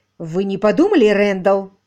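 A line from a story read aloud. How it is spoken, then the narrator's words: Sharp. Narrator (Russian): резко произнесла мисс Силвер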